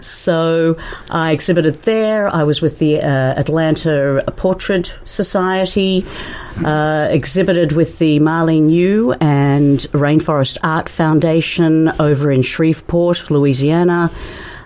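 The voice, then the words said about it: Australian accent. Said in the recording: “Ask for the Aussie chick. ... The Aussie chick, yeah, the one with a funny accent.”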